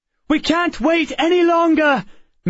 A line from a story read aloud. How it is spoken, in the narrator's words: Miss Peregrine cried